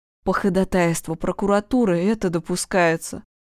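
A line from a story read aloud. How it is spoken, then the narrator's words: Tired tone. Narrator (Russian): усталым тоном произнес Черенков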